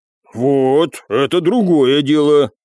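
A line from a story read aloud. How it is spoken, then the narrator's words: Stronger, steadier voice. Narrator (Russian): окрепшим голосом произнес Михалыч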